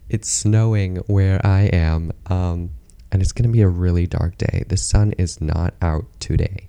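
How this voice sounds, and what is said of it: Hoarse, strained voice. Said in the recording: “losing my voice.”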